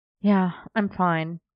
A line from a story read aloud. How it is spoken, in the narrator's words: Merlin sighed